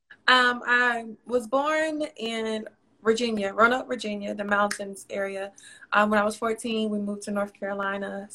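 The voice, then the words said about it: Southern American accent. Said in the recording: “You can kind of hear it in my accent. ... Yes, I can tell. I knew that it was south”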